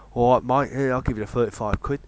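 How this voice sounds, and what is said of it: Put-on Cockney accent. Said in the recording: “I put on a Cockney accent going ... your impressions are seamless”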